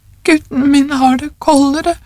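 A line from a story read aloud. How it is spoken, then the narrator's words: Old woman sobbing. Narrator (Norwegian): sa den gamle konen hulkende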